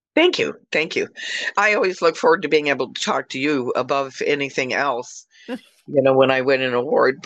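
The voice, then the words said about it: Slightly rough, ill-sounding voice. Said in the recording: “if I sound a little weird today. My bronchitis is acting up a little”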